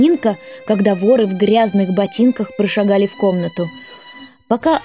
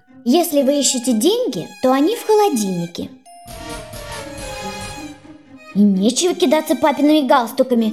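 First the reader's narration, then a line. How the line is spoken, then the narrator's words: Plain. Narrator (Russian): сказала Нинка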